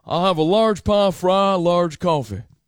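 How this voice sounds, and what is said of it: Hank Hill cartoon voice impression. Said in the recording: “I was trying to do Hank Hill. ... he sounds like Hank Hill to me.”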